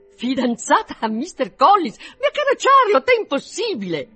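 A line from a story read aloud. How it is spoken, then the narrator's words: Astonished, uncontrollable exclamation. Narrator (Italian): Tale fu dunque il suo stupore da superare a tutta prima i limiti della convenienza, così che non poté trattenersi dall'esclamare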